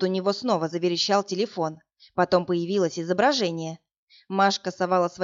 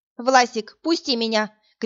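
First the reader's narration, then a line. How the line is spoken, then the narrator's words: Shouting. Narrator (Russian): кричала она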